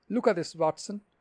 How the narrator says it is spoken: he cried

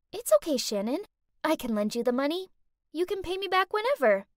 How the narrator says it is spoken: smiling sweetly, said

